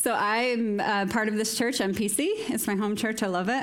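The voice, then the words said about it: American accent. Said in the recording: “what's that accent? Where is she from? ... I'm from America.”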